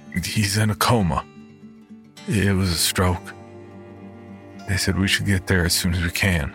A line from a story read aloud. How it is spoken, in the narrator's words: cleared a lump in my throat and croaked